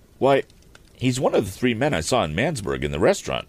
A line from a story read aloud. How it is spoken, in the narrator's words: said Tom eagerly